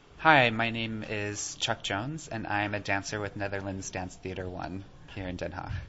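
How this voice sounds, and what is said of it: American accent. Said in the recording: “I did detect an American accent.”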